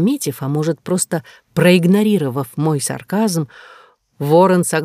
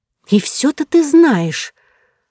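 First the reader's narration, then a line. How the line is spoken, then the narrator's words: Irritated hiss. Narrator (Russian): Раздраженно прошипев, я злилась не только на его осведомленность, но и на то, что, по сути, он был прав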